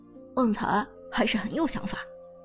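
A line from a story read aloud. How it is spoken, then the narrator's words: Sincere admiration. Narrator (Chinese): 苏哲由衷赞叹道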